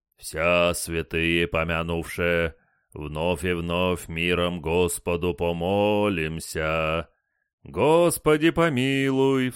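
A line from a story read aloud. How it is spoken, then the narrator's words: Deacon's booming bass. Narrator (Russian): Здоровый диакон в широкой хламиде забасил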